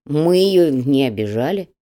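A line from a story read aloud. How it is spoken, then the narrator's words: Grumbled. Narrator (Russian): проворчал Петруха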